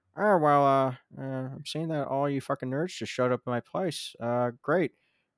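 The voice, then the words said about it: Imitates another person's voice, poorly. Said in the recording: “That's a really bad George Lucas impression”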